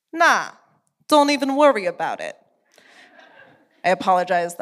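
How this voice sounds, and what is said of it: Put-on Brooklyn accent. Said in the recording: “that's my Brooklyn accent.”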